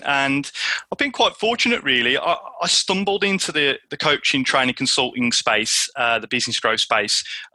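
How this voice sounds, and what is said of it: Midlands English accent. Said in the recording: “is a Midlands guy, as you can tell from the accent”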